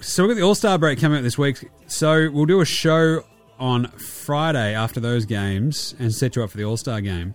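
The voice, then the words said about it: Worn-out, hoarse voice. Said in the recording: “my voice is a bit cooked”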